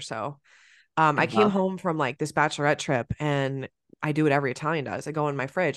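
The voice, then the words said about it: Sick, congested voice from a cold. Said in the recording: “you could probably tell in my voice, I've been a little sick. I have like a cold.”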